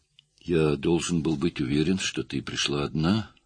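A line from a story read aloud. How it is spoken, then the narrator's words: Quiet. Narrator (Russian): тихо ответил он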